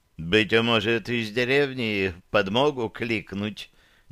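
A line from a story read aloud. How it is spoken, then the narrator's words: Businesslike inquiry. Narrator (Russian): деловито осведомился Тоннис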